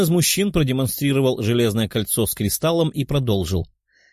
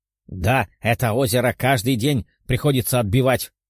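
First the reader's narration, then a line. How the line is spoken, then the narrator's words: Growled. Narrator (Russian): рыкнул один из одаренных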